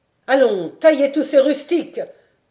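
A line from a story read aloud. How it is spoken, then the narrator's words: Shouting orders. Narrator (French): criait de Romard à ses gens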